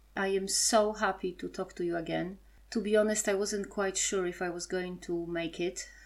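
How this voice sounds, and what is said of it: Strong Polish accent. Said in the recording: “my Polish accent remains strong”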